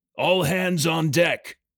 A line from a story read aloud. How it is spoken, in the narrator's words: Shouts